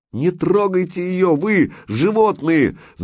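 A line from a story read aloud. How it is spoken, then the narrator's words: Woman screaming. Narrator (Russian): закричала жена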